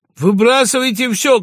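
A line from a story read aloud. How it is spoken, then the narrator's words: Shouting. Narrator (Russian): кричал Пагава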